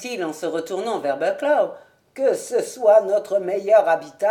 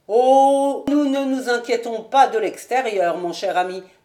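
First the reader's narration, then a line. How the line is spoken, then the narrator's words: Plain. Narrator (French): dit Bucklaw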